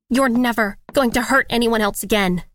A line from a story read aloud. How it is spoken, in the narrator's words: I said, my voice shaking